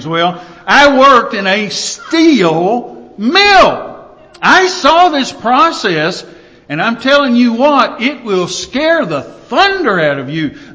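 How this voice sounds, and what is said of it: Southern American accent. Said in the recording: “I guess I really do have a southern accent about some things.”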